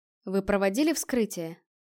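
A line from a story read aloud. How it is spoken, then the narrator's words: Plain question. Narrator (Russian): спросил хиллер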